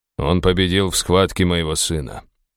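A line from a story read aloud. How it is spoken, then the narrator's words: Grumbling. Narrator (Russian): проворчал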